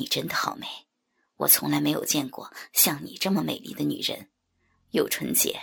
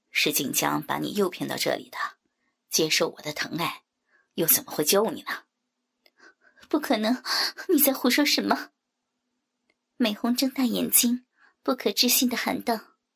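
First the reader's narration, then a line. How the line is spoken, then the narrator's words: Flat, indifferent tone. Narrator (Chinese): 新奇淡淡的说道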